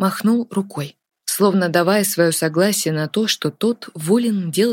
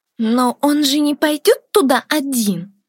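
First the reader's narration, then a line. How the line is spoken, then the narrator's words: Agitated squeak. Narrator (Russian): взволнованно пропищала Роза Миддлстоун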